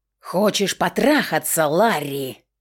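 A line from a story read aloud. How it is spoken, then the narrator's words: Growling. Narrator (Russian): зарычала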